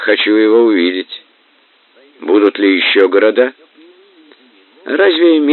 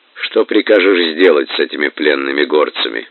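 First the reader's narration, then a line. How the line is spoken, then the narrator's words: Plain question. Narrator (Russian): спросил Субудай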